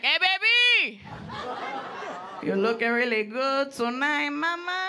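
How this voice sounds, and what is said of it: Smooth Latin-accented man's voice. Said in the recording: “Latin accent ... he's smooth”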